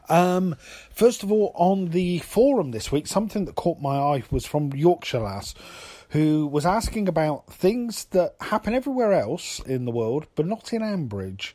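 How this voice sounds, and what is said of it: Hoarse, fading voice. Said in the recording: “I'm beginning to lose my voice because I've had a bit of a cold”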